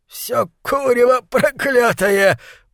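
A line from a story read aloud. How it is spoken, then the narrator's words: Wheezing. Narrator (Russian): просипел он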